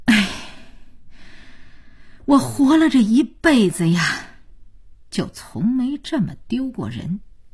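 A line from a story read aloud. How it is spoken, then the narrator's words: Grandmother's long sigh. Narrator (Chinese): 姥姥长叹一声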